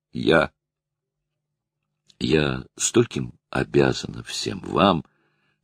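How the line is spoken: Trembling voice. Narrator (Russian): дрожащим голосом проговорила она

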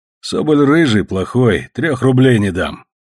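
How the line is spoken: Rough speech. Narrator (Russian): грубо сказал

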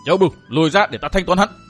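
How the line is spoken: Thunderous roar. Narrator (Vietnamese): Gầm lên như sấm, Đông Đại Nương miệng thét lớn

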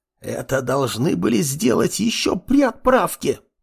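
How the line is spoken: Hissed. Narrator (Russian): прошипела архивариус

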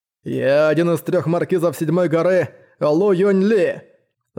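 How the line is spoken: Shout. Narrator (Russian): закричал он

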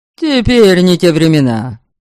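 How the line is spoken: Barked shout. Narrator (Russian): рявкнул Радибош

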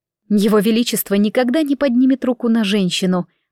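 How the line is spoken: Plain. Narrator (Russian): ответила я

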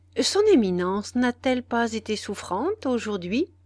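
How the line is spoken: Plain. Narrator (French): demanda-t-il

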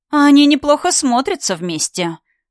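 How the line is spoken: Mocking dragoness. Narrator (Russian): насмешливо произнесла драконида

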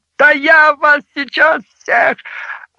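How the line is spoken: Yelling. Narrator (Russian): Мамочка заорал на оперов

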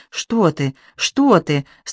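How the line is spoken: Old woman, frightened. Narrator (Russian): встрепенулась испуганно

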